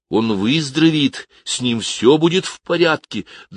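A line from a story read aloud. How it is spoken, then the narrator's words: Trembling-voiced question. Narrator (Russian): дрожащим голосом спросил Кевин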